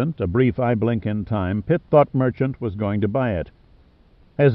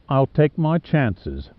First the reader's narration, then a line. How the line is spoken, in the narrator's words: Merchant said dryly